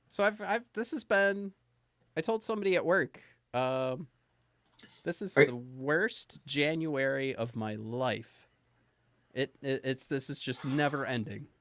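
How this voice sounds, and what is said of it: Nasal, congested, goopy voice. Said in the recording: “how nasally and disgusting and goopy my voice is right now”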